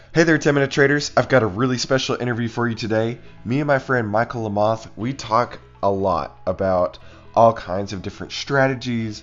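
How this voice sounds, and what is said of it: Congested voice from a cold. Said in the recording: “As you can tell, I've got a little bit of a cold today”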